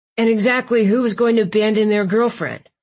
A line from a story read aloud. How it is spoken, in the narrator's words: Marcus snapped